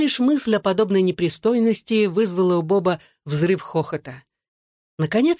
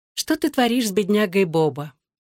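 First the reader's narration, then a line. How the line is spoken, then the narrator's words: Purring. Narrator (Russian): промурлыкала она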